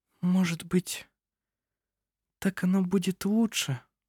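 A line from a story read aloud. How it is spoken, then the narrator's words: Barely audible. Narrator (Russian): Еле слышно произнесла она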